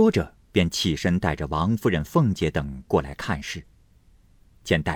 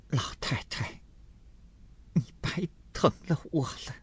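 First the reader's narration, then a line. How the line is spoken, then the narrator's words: Breathless weak woman. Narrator (Chinese): 喘吁吁的说道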